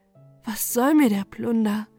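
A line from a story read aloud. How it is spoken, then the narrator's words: Tearful sighing to herself. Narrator (German): sprach zu sich selbst, daran Seufzer und Tränen hangen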